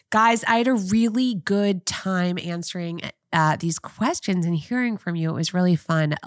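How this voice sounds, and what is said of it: Rough, sick-sounding voice. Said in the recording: “sorry for my voice. ... with my cold”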